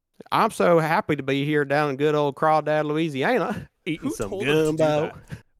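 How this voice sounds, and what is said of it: Put-on southern US accent. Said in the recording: “Remember when he started talking in a southern accent?”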